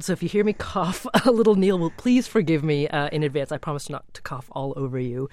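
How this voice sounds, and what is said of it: Congested, slightly hoarse voice. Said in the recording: “as you can hear, I've got a bit of a cold. ... A bit of a frog in my throat.”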